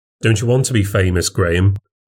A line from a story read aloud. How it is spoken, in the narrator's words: said Linda